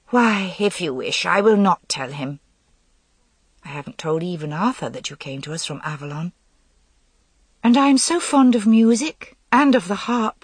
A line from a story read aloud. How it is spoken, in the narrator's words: Nimue pleaded